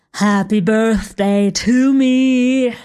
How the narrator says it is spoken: slurred

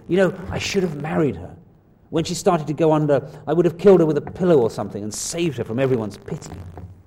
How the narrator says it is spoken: surprised himself by saying rather savagely

